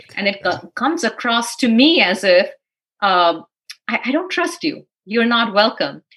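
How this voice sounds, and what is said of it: Speaks with a noticeable accent. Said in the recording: “where is your accent from?”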